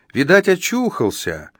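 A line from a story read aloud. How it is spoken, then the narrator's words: Glad exclamation. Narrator (Russian): обрадованно воскликнула мать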